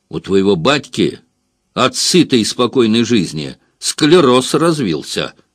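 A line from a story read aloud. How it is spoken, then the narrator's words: Said angrily. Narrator (Russian): сердито сказал Воловодов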